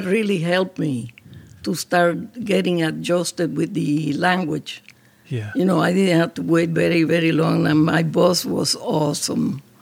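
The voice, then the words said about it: Non-native accented English. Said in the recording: “they would laugh about my accent”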